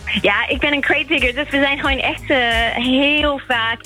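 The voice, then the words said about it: English accent speaking Dutch. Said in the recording (Dutch): “Ik hoor bij jou een Engelse accent.”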